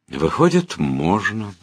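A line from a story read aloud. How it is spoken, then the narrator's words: Sigh. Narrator (Russian): вздохнул я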